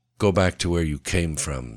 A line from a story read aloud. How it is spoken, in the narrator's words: said Boris coldly